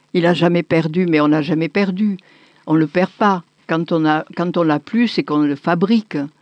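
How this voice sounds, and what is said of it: Strong Marseille French accent. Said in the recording (French): “cet accent-là, il est un peu rare ... qui est vraiment l'accent ... son accent de Marseille”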